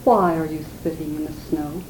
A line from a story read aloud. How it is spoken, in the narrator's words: he said in a very gentle voice